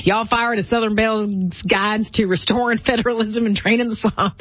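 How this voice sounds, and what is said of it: Put-on Southern accent. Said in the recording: “Sorry, I have to go with the accent throughout the whole thing now.”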